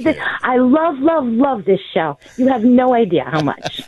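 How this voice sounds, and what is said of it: New York accent. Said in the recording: “I'm calling from New York ... I got a hint on the accent”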